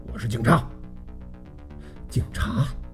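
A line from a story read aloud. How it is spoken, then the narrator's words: Low stern bark. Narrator (Chinese): 压低了声音喝道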